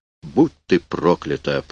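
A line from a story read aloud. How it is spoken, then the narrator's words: Mumbled. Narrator (Russian): пробормотал Эйнсли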